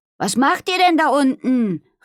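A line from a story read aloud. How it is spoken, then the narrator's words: Called out. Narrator (German): rief sie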